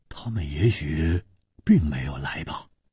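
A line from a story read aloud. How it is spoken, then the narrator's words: Deep, grave voice. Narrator (Chinese): 黄鲁直沉声说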